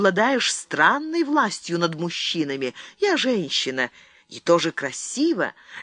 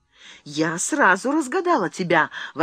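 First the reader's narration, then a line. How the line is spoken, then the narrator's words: Exclamation, queen. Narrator (Russian): воскликнула королева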